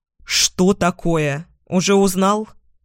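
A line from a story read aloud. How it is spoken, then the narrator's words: Irritated angry question. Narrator (Russian): Раздраженно спрашиваю, все еще злясь на него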